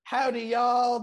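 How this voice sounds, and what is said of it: Put-on Southern accent. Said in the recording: “he nailed my love of the Southern accent”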